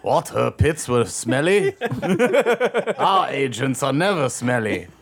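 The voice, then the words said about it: Put-on German accent. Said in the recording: “that was a German accent”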